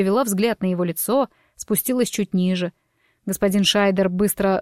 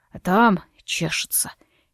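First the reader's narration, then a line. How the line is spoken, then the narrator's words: Unhappy whisper. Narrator (Russian): несчастным голосом прошептал он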